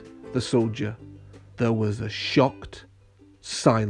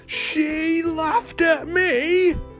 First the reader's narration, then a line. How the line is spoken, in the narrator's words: cried the king